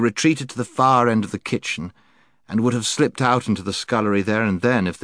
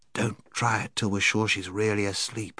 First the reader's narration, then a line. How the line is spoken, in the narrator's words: whispered Scrub